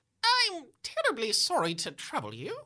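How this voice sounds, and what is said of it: Clipped British accent. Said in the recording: “the man says in a clipped British accent.”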